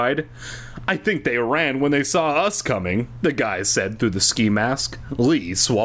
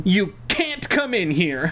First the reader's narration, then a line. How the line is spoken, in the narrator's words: she shouted angrily